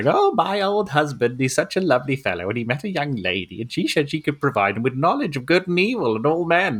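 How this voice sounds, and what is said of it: Convincing old lady character voice. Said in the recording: “that's a really good old lady accent. ... That's very good.”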